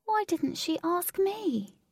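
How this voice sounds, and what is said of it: Sad, saddened voice. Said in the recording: “in a saddened voice”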